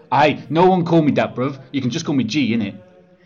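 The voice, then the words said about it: Ridiculous put-on slang accent. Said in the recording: “Why on earth are you speaking in such a ridiculous accent?”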